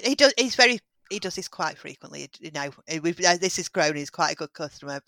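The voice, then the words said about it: Oldham English accent. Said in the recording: “your accent doesn't sound too far away, but doesn't sound Stockport. ... Oldham. ... It's an Oldham accent.”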